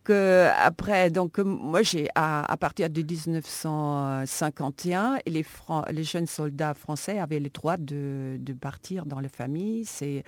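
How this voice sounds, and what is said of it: Charming foreign accent in French. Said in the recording (French): “votre accent est charmant”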